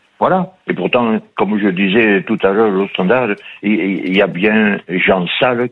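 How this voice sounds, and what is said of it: Southwestern French regional accent. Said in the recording (French): “les gens qui ont des accents, moi je suis pénalisé ... vous avez un accent... ... Je suis à moitié de Mont-de-Marsan et basque.”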